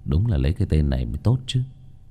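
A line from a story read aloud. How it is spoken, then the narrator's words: Muttering. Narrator (Vietnamese): Vương Bình lẩm bẩm nói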